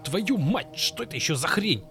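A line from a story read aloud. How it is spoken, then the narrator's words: Sharp shout. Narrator (Russian): Резко выкрикнул Блэк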